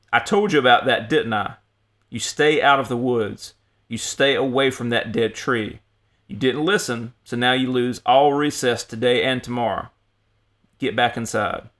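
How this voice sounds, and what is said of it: Louder, stern scolding voice. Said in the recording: “in a louder voice”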